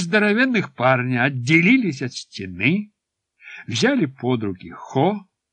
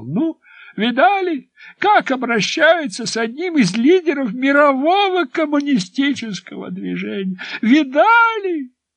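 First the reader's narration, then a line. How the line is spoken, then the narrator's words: Shouting. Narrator (Russian): Дедушка Хо кричал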